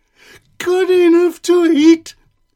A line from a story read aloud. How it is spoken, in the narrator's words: shrieked the gingerbread man